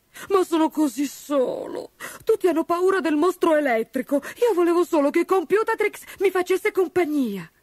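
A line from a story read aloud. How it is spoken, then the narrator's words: Sobbing. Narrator (Italian): singhiozzò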